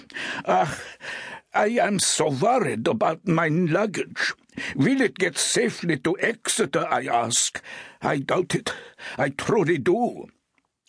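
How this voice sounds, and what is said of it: Pronounced German accent. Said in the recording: “speaking in a pronounced German accent said”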